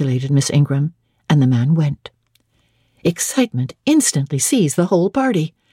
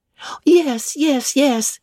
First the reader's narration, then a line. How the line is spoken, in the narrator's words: cried all the juveniles, both ladies and gentlemen